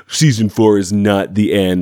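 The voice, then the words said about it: Bad Donald Trump impression. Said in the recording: “bad Trump impression”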